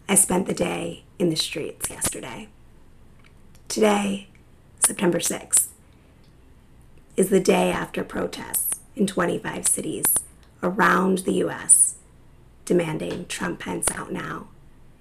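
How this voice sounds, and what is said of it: Hoarse, strained voice. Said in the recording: “As you can hear, my voice is pretty shot.”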